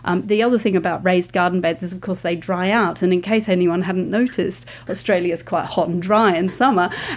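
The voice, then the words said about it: British English accent. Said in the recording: “I'm from the UK, as you can probably tell from my accent.”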